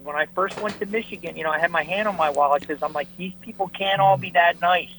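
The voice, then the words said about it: Philadelphia accent. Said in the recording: “you can tell by my wonderful accent that I'm a Philly guy”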